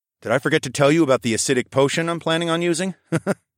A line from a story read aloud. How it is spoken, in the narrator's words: chuckled